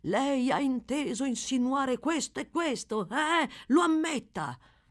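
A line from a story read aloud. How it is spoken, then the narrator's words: Harsh confrontational shout. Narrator (Italian): gridargli, a muso duro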